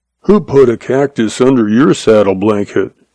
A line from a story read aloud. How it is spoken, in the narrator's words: the sheriff muttered sullenly